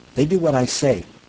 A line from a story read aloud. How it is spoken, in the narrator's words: Manning snapped